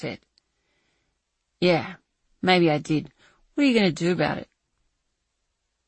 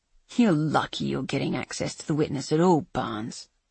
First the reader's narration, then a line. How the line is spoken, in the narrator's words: Nigel spat